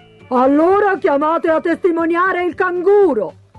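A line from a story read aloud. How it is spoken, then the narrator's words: Pelican shouting. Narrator (Italian): gridò il pellicano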